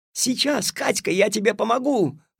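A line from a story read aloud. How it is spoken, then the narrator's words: Desperate shout. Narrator (Russian): в отчаянии крикнул Алешка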